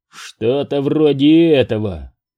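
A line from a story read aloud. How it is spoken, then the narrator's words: Sergeant's muttering. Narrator (Russian): пробурчал сержант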